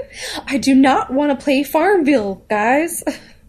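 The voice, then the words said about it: Put-on Southern US accent. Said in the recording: “southern accent ... every single like impression you've done has been a southern accent.”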